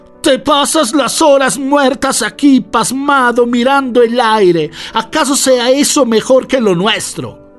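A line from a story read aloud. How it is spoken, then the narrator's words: Woman shouting. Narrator (Spanish): le gritó ella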